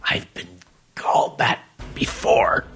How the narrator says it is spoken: Max grunted

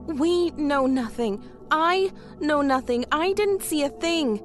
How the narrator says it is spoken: Tanya exclaimed

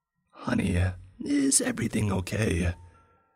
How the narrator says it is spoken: That thing's voice no longer even sounding human, rather like a raspy mix of a husky barking and a reptilian lisp

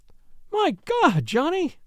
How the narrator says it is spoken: she wailed

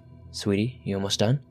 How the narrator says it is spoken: my boyfriend ask

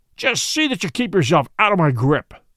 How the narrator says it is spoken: he snarled

